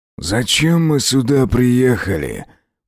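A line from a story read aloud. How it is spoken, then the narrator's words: Growled. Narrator (Russian): прорычал Аскольд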